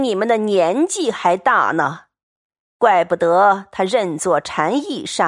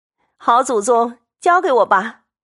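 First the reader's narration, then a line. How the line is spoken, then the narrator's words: Laughing. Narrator (Chinese): 凤姐儿也笑说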